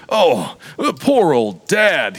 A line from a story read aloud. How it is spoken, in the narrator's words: he added, brokenly